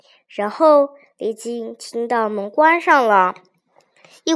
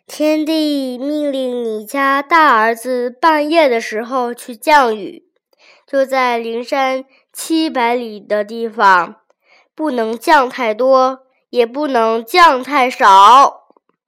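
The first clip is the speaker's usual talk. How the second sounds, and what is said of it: Deep, loud booming male voice. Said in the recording (Chinese): “很粗大洪亮”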